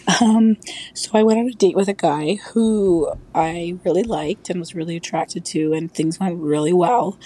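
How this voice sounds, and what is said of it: Congested voice from a cold. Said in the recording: “I have a bit of a cold, so my voice sounds crazy.”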